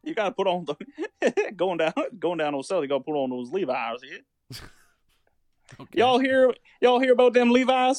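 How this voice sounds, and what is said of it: Put-on southern accent. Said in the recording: “Why'd you get a southern accent when you said Levi's?”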